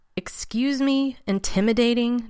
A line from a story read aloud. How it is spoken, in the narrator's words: Danny scoffed, unable to contain his sarcasm